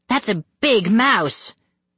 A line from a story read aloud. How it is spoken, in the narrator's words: Denisha cried